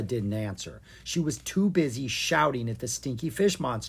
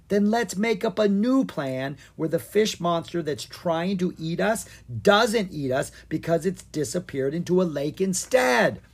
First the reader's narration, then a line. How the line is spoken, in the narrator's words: Owen shouted